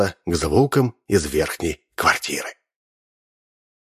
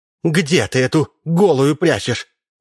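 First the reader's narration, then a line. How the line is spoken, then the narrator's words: Shouting. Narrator (Russian): кричала Ксения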